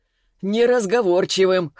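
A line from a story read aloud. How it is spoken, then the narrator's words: Short chuckle. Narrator (Russian): хохотнул Селиванов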